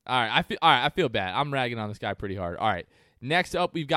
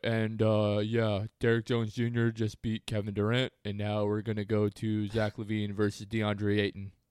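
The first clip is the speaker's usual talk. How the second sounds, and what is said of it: Imitates another person's voice. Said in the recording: “That was a perfect impression.”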